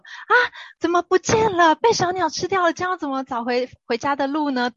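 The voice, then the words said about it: Frightened, alarmed exclamation. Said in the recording (Chinese): “他们也会发出那种很惊恐的声音说”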